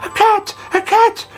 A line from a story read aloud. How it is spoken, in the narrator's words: they cried